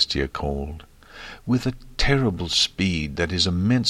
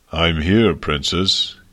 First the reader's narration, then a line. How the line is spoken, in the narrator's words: he said, his voice deep and thunderous